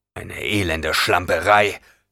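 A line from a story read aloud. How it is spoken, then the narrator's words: Duke growling. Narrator (German): knurrte der Herzog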